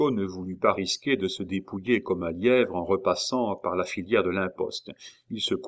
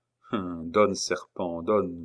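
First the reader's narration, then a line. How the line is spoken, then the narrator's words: Murmuring. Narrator (French): murmura Chico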